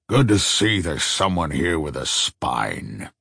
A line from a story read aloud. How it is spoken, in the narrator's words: the old man muttered